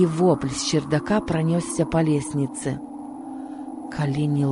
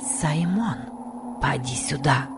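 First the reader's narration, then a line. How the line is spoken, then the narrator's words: Whispering. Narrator (Russian): прошептала Касси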